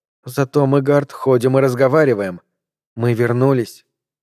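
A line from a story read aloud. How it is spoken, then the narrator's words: Soft speech. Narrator (Russian): мягко проговорила она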